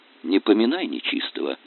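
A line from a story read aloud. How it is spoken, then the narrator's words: Quiet request. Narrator (Russian): тихо попросил Василин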